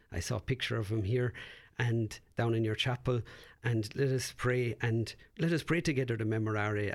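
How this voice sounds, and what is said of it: Irish accent. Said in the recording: “you know from my accent, dear listeners, where I'm from, but there's a place called Knock in Ireland”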